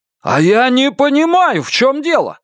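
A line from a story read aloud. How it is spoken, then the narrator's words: Shouting. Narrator (Russian): закричал Лестер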